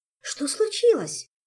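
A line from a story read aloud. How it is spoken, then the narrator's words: Frightened exclamation. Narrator (Russian): Испуганно подскочила Ольга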